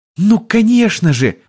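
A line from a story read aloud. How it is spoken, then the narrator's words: Sudden exclamation, young woman. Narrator (Russian): внезапно воскликнула девушка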